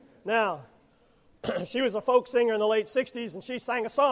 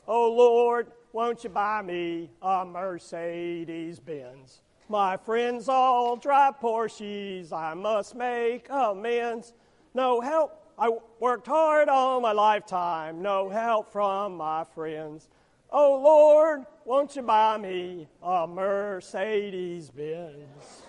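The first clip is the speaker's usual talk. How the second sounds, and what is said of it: Imitates another person's singing voice. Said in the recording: “my best Janis Joplin imitation”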